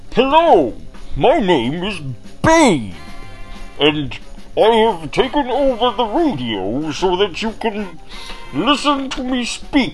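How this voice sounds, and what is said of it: Put-on Batman villain voice. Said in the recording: “my nemesis, the Batman. And I really don't know how to do this accent, but I am trying”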